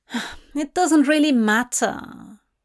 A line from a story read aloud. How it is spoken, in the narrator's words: Hop says with a sigh